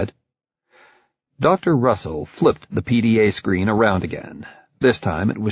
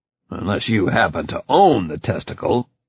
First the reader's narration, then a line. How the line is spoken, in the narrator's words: I growled